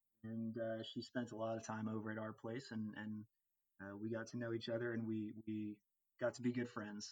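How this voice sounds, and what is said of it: American accent. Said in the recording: “as you can tell from ... accent, he is American.”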